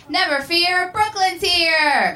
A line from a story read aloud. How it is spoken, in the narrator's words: a young sexy boy shouted